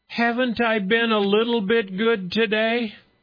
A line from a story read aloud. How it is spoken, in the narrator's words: the daughter burst into more tears, and then shouted at her mother